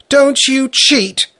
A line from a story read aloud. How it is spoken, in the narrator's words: Sanka was shouting at Bertha indignantly